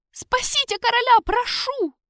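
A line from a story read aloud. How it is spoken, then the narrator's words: Tearful shrill squeal. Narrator (Russian): взвизгнул Серхио, размазывая по щекам грязь и слезы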